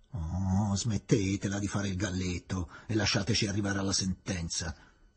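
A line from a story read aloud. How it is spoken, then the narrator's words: Grumbling, military officer. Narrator (Italian): brontolò il maggiore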